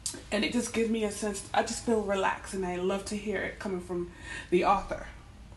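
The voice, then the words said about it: Hoarse voice. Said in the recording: “my voice is getting hoarse”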